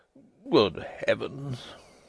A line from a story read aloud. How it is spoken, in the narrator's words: murmured the doctor again